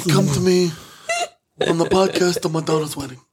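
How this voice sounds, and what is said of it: Imitates another person's voice. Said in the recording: “my impression is not that good ... a little De Niro in there”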